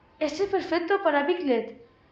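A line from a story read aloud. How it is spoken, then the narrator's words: Exclamation. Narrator (Spanish): exclamó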